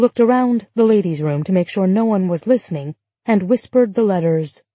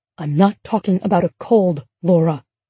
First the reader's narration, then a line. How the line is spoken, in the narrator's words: she whispered sternly